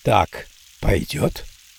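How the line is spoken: Whispered. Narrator (Russian): произнес шепотом

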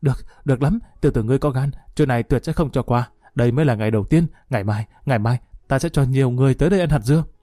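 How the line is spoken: Panting, through gritted teeth. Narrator (Vietnamese): Thái Du thở hổn hển nghiến răng nói

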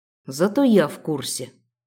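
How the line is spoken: Amused snort. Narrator (Russian): хмыкнул Хантер

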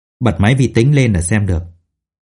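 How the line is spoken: Dry, mirthless laugh. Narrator (Vietnamese): Lục Đại Xuân ... cười nhạt một tiếng rồi nói

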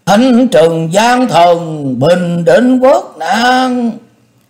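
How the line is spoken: Excited crowd cheering. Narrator (Vietnamese): Chư quân phấn khởi reo hò, nhao nhao hò hét phấn khích

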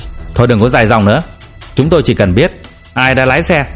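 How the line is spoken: Man shouting loudly. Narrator (Vietnamese): Một người đàn ông quát tướng lên

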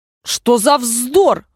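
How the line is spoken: Loud. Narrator (Russian): громко сказала Алиса

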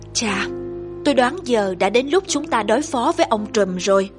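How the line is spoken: Sighing. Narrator (Vietnamese): Frodo thở dài nói

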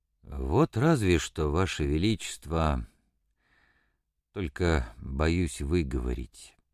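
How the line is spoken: Hesitant timid speech. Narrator (Russian): Иван Никитич сказал нерешительно и даже робко

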